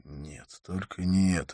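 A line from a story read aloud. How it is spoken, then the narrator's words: Silent inner plea. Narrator (Russian): мысленно взмолился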